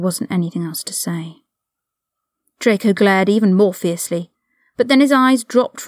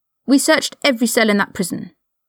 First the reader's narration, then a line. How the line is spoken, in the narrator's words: Draco snapped